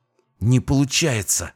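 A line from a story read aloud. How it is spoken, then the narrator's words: Angry hiss. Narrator (Russian): зло прошипела Кэтрин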